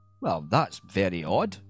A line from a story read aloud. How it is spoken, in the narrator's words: said the Laird, chuckling